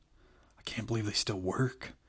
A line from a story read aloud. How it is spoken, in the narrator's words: Charlie said under her breath